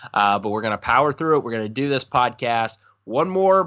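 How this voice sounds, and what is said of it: Sick, slightly off-sounding voice. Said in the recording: “I'm a little bit under the weather. If my voice sounds weird, that's what it is.”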